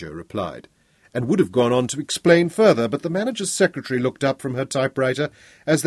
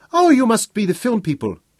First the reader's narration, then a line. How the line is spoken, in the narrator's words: greeted them brightly in Swahili